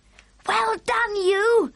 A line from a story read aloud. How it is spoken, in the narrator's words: Sophie cried